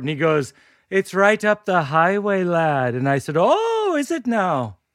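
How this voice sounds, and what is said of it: Put-on Irish accent. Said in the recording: “Irish accents are contagious”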